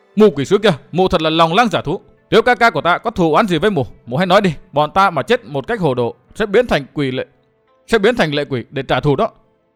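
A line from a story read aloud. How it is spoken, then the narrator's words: Furious roar. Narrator (Vietnamese): Sự Hắc Thanh không nhẫn nại được nữa, gầm lên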